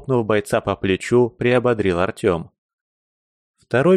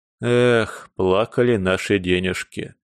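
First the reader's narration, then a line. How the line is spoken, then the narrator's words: Sorrowful sighing farewell. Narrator (Russian): горестно вздохнув, попрощался казначей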